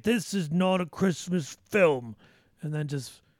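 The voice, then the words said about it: Put-on accent. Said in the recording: “sorry, probably wrong accent.”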